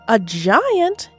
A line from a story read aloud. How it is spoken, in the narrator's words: his mother shrieked